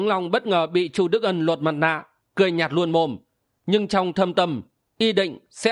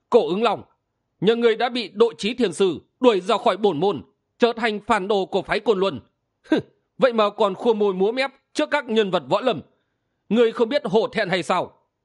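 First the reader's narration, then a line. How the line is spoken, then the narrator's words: Increasingly angry. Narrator (Vietnamese): Chu Đức Ân càng tức giận nói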